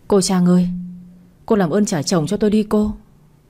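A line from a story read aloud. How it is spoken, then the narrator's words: Woman, trembling voice. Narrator (Vietnamese): Người phụ nữ nói giọng run run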